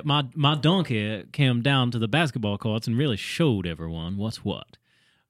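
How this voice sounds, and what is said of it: Foghorn Leghorn impression. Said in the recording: “It's like Foghorn Leghorn.”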